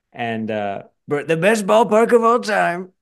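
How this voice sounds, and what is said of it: Imitates another person's voice. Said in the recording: “That was a good impression. ... That was a good one.”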